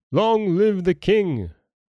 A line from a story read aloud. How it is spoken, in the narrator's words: the multitude exclaiming with one voice